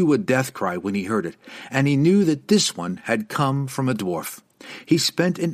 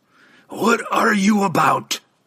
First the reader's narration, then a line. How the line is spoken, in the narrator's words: Gandalug roared